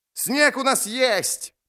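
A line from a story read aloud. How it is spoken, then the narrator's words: Roaring. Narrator (Russian): проревел Анкарн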